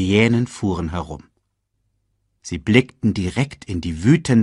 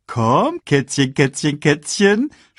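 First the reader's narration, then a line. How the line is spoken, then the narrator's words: Mocking. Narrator (German): spottete er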